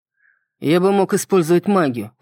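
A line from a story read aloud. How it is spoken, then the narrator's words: Grumbling. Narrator (Russian): проворчал Рон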